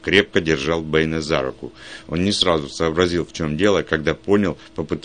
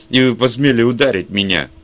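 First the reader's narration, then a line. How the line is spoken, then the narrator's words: Shrieking. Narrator (Russian): Миссис Ашер провизжала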